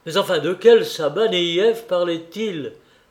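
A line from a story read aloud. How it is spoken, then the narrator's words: Clerk shouting at top of voice. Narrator (French): répétait toujours le commis, criant à tue-tête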